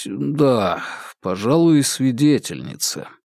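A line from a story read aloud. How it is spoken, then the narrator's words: Reluctant mumble. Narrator (Russian): пришлось промямлить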